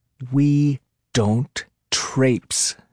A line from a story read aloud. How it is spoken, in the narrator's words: she said through gritted teeth